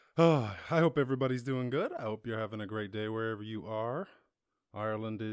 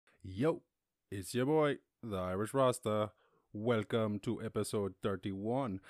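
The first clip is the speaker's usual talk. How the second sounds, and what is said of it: Put-on accent. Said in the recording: “I get into that accent ... I tried to do that stupid accent”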